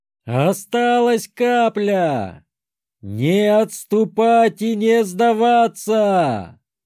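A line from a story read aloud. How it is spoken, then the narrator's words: Roaring. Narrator (Russian): проревел я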